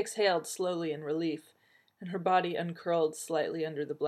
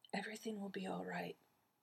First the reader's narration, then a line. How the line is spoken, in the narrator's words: she whispered to herself